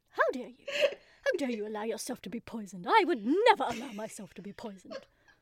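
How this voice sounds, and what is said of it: Posh, angry queen voice. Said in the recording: “a very angry queen. And that will be my voice for this week. I'll just be a very posh and angry queen... It's just a ridiculous voice that I put on”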